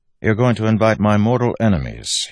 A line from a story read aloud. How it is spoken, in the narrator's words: said dryly